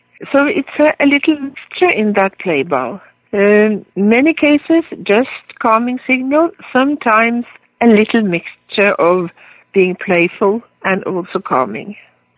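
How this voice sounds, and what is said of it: Slight Norwegian accent. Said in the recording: “a bit of an accent, that's because she was born in Oslo, Norway”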